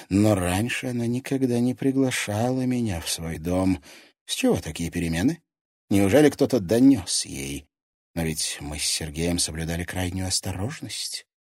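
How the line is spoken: Breathy exhale. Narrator (Russian): выдохнула Доминика

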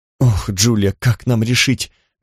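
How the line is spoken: Sighing. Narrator (Russian): вздохнула Кара

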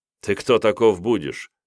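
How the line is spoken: Snorting question. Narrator (Russian): хмыкнув, поинтересовался князь

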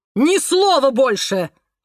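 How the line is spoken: Barked. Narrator (Russian): рявкнул Семен Анатольевич

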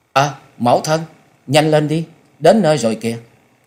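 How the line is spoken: Child's sudden call. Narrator (Vietnamese): Cậu bé Lâm Nhi chợt lên tiếng kêu lên

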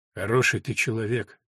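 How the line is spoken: Quiet. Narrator (Russian): тихо сказала она

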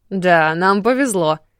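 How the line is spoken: Short laugh, young man. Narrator (Russian): хохотнул парень

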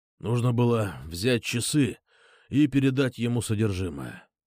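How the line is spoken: Strained, forced out. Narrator (Russian): выдавил вьетнамец

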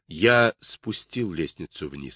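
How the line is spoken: Plain. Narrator (Russian): сказал он

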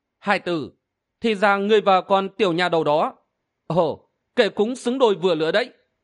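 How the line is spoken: Said smiling. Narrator (Vietnamese): mỉm cười nói

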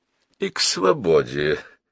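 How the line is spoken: Thoughtful. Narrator (Russian): задумчиво проговорил Джон Грей

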